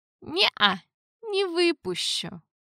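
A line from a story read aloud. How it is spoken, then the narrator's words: Lazy reply. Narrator (Russian): Лениво ответил я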